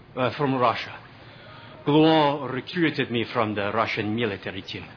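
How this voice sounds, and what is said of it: Russian accent. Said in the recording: “I find your accent quite funny. ... You need to work on your accent.”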